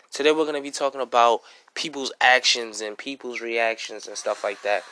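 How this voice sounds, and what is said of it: Sick, unwell-sounding voice. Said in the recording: “I'm sick. You can hear it in my voice that I'm not really sounding like myself ... I still have this cough”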